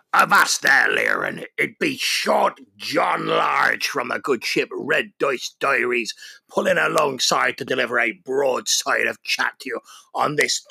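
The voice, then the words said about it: Pirate accent. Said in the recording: “Talk Like a Pirate Day”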